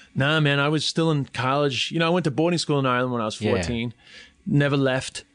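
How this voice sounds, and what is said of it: New York accent. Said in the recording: “I'm an Irish comic with a New York accent.”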